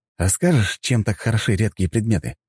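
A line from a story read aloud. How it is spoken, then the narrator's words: Plain. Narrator (Russian): спросил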